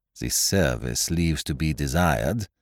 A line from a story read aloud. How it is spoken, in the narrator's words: he observed dryly